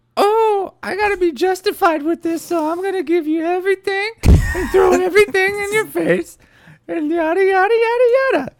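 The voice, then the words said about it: Unflattering impression of Lindsay. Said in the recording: “Your Lindsay impression has gotten a little less complimentary.”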